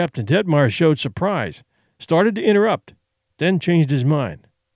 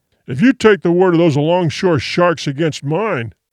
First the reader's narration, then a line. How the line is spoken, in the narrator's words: the other began thickly